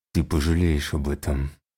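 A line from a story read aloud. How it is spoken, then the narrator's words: Through teeth, coughing. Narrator (Russian): процедил фантом, откашливаясь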